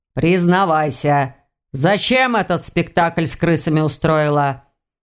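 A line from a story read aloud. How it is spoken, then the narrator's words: Menacing demand. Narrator (Russian): грозно вопросил он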